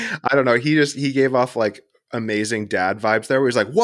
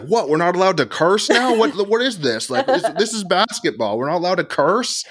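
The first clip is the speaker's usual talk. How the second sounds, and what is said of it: Put-on American dad accent. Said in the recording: “such an American accent ... my American dad”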